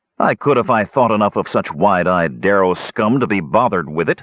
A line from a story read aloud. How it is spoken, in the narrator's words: snapped, his patience gone